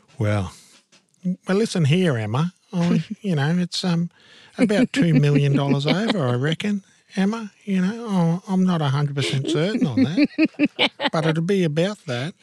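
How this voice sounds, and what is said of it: Good impression of Buzz. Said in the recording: “That's quite a good impression. ... Oh, Buzz.”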